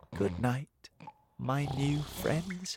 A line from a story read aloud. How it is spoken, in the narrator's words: he said quietly